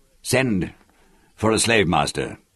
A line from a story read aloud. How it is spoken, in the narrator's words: Hui ordered irritably